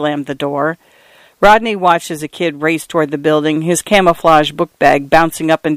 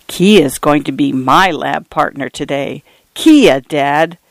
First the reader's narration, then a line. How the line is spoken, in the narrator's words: he lowered his voice conspiratorially